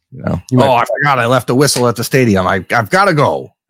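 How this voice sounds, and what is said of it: Imitates another person's voice. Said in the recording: “this is my Jim Harbaugh impression”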